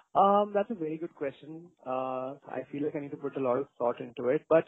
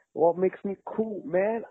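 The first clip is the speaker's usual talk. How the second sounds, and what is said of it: Briefly attempted accent, done poorly. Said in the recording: “I can't do that accent really well. That's why I dropped it very fast.”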